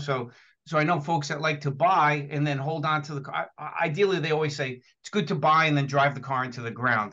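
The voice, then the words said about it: New Jersey accent. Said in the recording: “I'm in New Jersey, if you can't tell by my accent”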